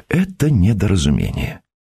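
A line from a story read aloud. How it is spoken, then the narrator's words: Calm repetition. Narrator (Russian): повторил спокойно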